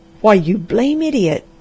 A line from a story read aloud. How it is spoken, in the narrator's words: cried Dr